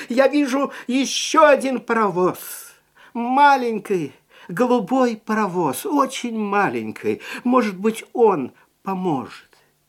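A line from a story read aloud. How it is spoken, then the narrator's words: Shouted again. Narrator (Russian): клоун снова закричал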